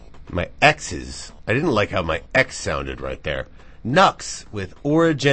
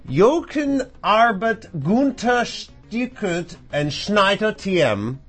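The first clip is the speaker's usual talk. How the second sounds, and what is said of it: Put-on German accent. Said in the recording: “Why did I go into a German? ... I started getting into a German accent. ... My dumb brain started going into a German accent.”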